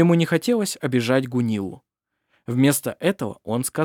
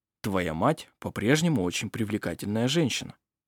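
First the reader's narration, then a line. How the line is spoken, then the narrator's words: Gentle remark. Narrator (Russian): мягко заметил он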